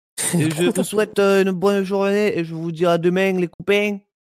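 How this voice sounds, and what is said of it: Put-on Marseille accent. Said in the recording (French): “l'accent marseillais ... Pourquoi t'as pris l'accent du sud”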